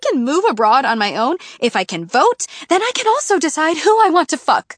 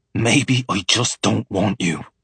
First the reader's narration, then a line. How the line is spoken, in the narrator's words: he says through gritted teeth